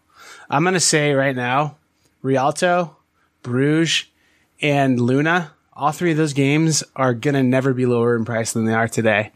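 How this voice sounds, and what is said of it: Imitates another person's voice. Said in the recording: “my imitation of Jim Cramer doing my stock predictions”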